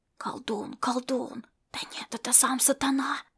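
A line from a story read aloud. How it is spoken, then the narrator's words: Group of warriors whispering. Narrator (Russian): зашептались воины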